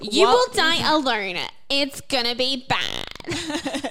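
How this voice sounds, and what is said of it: Sassy put-on character voice. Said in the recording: “terrible Miss Piggy impersonation ... That's my sass impersonation.”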